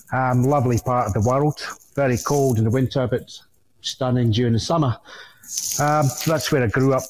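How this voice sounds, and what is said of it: Scottish accent. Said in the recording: “listening to the accent, I'm not from this country ... hail from northeast of Scotland originally”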